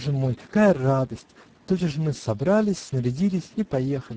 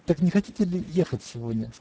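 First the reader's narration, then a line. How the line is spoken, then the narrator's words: Plain. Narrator (Russian): сказал Желез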